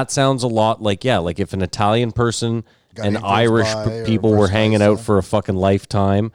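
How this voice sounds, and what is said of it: Usual voice. Nothing is said of it.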